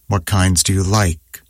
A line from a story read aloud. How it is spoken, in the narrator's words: said testily